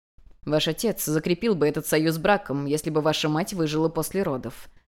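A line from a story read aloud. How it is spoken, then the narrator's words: Calm. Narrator (Russian): спокойно ответил Гуаньшань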